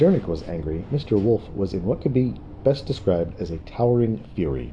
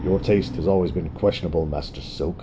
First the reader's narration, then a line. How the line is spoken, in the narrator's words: Wolf said in a frosty tone